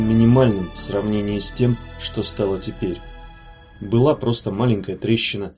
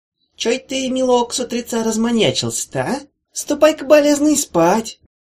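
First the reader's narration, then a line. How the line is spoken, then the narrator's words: Good-natured. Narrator (Russian): сказано это было более чем добродушно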